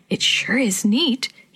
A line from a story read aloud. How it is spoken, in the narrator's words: he said in a whisper